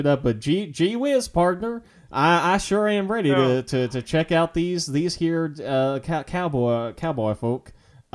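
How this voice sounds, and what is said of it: Comedic put-on Southern accent. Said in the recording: “I can bust out a comedy southern accent”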